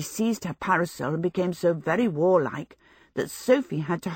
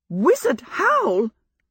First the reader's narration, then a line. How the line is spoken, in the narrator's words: exclaimed Fanny